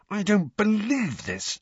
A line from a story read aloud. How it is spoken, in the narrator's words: snarled Harry